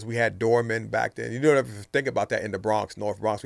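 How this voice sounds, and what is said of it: Southern accent with a New York tinge. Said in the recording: “You got your southern accent too, but you still got a little New York in there.”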